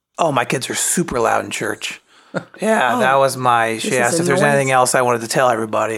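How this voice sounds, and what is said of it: Worn, old-sounding weird voice. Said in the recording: “such a weird voice ... burned through the pipes ... You sound like an 80-year-old.”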